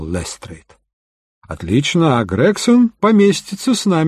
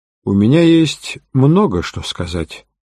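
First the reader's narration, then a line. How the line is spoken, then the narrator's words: Calm prisoner's reply. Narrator (Russian): спокойно ответил арестованный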